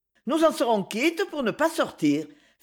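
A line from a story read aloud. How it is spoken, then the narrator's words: Light, cheerful tone. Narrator (French): fit Zina d'un petit ton allègre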